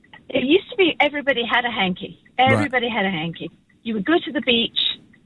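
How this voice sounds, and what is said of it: British accent. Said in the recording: “you're from the UK ... with this accent”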